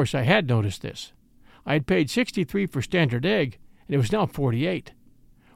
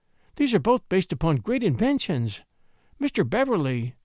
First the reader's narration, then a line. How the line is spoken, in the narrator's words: she interrupted me earnestly